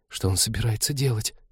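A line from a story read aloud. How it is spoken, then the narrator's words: Disbelieving whisper. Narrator (Russian): прошептала Полина, зная ответ, но будучи не в силах в него поверить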